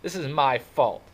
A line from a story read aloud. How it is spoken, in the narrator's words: Johnny said in a miserable voice